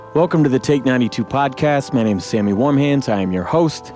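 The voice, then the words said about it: Slightly rough, worn-out voice. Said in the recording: “my voice is a little fucked up, it's because I just finished practice with my band”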